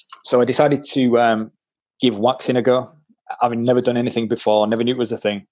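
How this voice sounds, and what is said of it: Yorkshire English accent. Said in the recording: “I am a tight Yorkshireman, as you can probably tell by my accent.”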